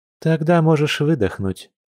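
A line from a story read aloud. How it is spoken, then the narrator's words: Gentle relaxed smiling. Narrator (Russian): ласково произнесла медведица, расслабленно улыбнувшись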